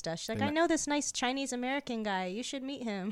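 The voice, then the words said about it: Accent slipping out in speech. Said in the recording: “why does she sound like ... that? ... If I say the word Chinese, my accent comes out.”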